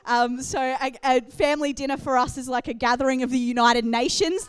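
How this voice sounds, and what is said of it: Australian accent. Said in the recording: “you've got the Australian accent”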